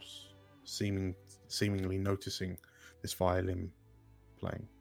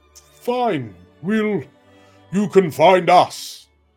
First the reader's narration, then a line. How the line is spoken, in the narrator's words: she shouted